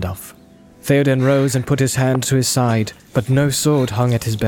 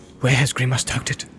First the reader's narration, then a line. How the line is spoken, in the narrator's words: he muttered under his breath